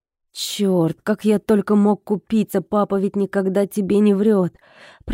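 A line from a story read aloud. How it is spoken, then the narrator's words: Groaning. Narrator (Russian): простонал он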